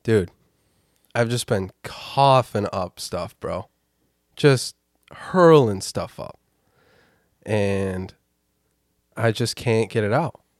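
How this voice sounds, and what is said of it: Sick, congested voice. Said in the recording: “just been ill for the past week and a half. I'm sure you can hear it in my voice. ... how my new voice sounds”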